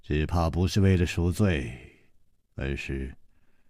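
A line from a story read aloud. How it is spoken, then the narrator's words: Sighing. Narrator (Chinese): 楚留香叹了一口气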